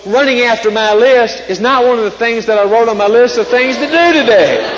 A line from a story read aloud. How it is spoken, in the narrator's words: wailed Toad